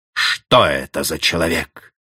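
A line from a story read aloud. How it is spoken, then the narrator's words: Through gritted teeth. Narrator (Russian): проговорил он сквозь зубы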